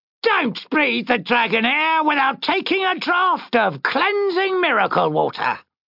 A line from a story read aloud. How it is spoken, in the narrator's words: shouted a bearded man